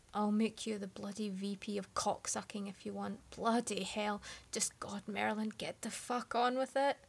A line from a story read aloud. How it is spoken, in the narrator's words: Arthur groaned and said